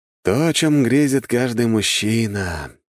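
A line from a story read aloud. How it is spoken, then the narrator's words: Dreamy sigh. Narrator (Russian): мечтательно вздохнул я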